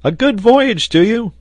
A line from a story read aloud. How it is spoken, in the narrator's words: shouted the sailor